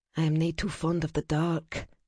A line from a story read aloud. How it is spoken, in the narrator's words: she added softly